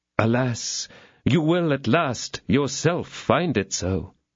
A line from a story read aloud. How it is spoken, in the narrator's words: exclaimed Aramis with a sigh